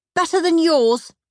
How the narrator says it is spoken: snapped Margaret

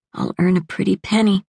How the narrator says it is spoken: she whispered

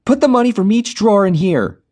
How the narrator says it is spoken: Jenny yelled

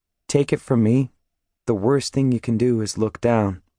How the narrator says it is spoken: In my regular, non-preacher voice, say, as calmly as possible

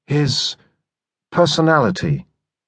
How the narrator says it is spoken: chided the medium gently

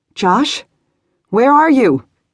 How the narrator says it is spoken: she shouted, fear rising

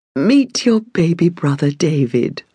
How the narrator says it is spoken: Mother smiled softly

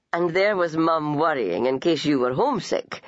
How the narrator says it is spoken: her father laughingly remarked

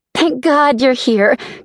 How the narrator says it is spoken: Kylie exclaimed

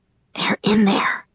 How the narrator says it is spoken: she whispered to Bree

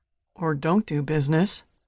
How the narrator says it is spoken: muttered Benson

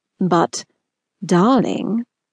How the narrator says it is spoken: Wickham lowered his voice seductively

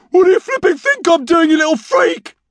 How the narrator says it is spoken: yelled Norm

